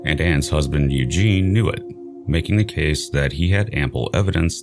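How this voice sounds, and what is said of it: American accent. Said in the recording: “as I'm sure you can tell from this accent, I am a US citizen”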